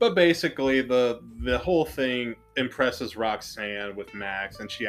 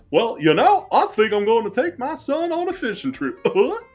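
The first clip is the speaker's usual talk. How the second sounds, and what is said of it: Cartoon Goofy character voice impression. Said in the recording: “that was a really bad Goofy impression ... your Goofies are great ... butchering my voice”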